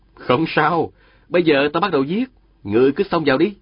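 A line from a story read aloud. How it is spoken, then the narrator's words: Smiling. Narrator (Vietnamese): Diên Thừa Chí mỉm cười, nói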